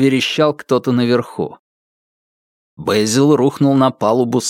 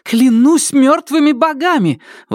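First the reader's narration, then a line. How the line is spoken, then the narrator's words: Startled frightened exclamation. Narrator (Russian): воскликнула Нелит, подскочив от испуга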